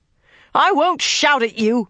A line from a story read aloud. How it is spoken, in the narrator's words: Nynaeve shouted